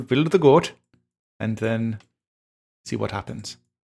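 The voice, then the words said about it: Put-on Swedish accent. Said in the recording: “I want to hear more of that Swedish accent.”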